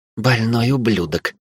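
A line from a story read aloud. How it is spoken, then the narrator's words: Whisper. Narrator (Russian): прошептала наставница Эйрин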